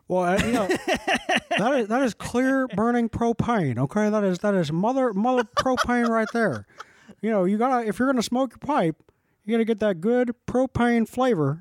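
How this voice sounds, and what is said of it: Poor Hank Hill cartoon voice impression. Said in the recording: “A Hank Hill accent? ... attempt at a Hank Hill accent. I was actually pretty terrible.”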